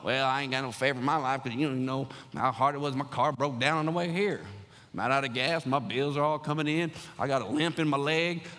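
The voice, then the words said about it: Put-on folksy accent. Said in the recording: “I don't know where that accent came from, just to roll with it. But, like, I don't know if you talk like that, but somebody talks like that.”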